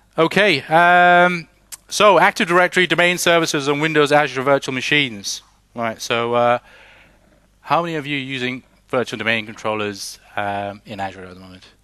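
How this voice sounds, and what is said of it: British English accent. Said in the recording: “I'm originally from the UK, by the way, just in case you're wondering about my non-Danish speaking English accent.”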